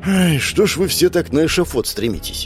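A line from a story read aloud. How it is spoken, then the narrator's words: Sigh. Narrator (Russian): вздохнул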